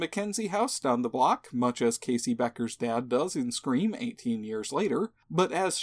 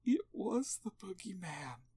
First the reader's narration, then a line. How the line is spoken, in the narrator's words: says a sobbing Lori